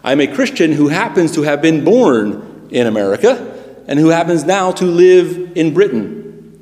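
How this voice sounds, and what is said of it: American accent. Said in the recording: “I am not an American Christian. Neither am I, you can tell by my accent, a British Christian”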